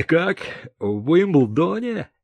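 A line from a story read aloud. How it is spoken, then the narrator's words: Cheerful laughter. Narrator (Russian): весело рассмеялся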